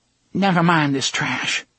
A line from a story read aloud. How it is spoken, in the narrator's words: she said, and her voice only quivered a little